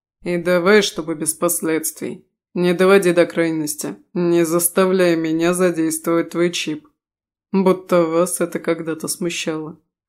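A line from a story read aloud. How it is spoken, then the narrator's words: Wry snort. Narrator (Russian): хмыкнул Рис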